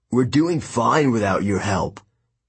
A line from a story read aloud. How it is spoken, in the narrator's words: Luke growled